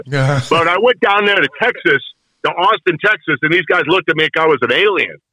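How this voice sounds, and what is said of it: Chicago accent. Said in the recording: “you hear my Chicago accent. It comes out when I'm talking to you guys... I love the Chicago accent.”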